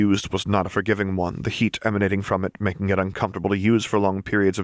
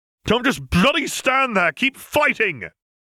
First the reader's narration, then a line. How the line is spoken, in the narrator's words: Harry shouted at the men